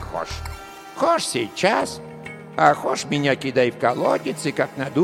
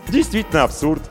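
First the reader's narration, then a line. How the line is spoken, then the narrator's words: Cheerful. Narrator (Russian): весело кивнул Емельян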